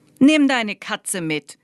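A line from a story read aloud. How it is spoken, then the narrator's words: Called out. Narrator (German): rief Lai ihm zu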